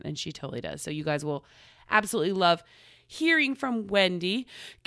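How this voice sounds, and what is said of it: Out of breath, audible breathing. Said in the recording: “Can you hear me breathing? Do I feel like I'm out of breath? ... all of a sudden I couldn't breathe. Like I've been running a marathon.”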